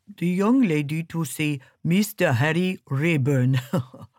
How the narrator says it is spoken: he said, and laughed

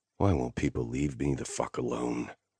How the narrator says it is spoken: I muttered

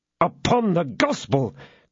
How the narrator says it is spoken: cried D'Artagnan

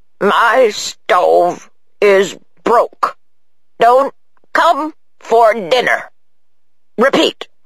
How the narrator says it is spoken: The old man said in a slow, hoarse voice

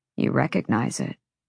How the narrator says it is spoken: Rune said softly

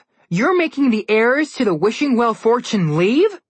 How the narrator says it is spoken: Connor exclaimed loudly enough for everyone to hear

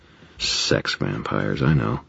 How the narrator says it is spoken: I muttered

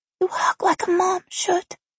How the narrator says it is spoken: Maria whispered as she buried her face in my neck

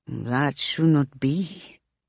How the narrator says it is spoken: he says slowly and softly

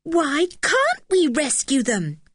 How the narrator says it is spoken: cried Anne, her eyes shining

